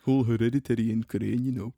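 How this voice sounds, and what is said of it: Put-on northern accent. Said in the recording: “we lost the accent a little bit... Hereditary in the northern accent's really tough.”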